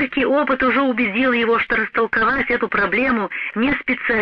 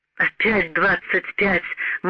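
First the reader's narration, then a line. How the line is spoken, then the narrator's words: Silent inner groan. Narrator (Russian): молча простонал Морган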